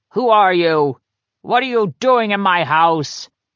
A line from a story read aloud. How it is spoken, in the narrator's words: he'd bellow